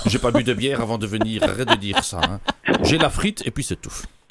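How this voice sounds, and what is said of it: Belgian French accent. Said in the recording (French): “je suis belge d'origine ... ça s'entend à ton accent”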